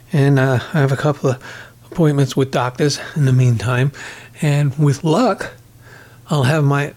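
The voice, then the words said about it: Breathless, strained voice. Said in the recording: “you can hear how out of breath I am or oot of breath ... It hurts to speak in my regular voice ... I'm getting sick of sounding like this”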